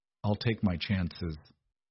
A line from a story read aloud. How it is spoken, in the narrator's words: he murmured